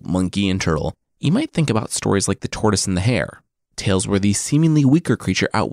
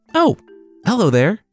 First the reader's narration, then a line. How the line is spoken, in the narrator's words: Turtle called out